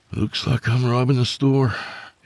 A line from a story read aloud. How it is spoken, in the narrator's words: he sighed